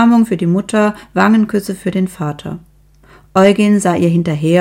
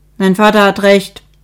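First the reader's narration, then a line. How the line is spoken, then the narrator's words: Sharp. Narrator (German): sagte Ursel scharf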